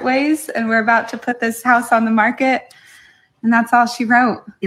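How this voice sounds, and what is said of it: Put-on accent. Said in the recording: “You like my accent?”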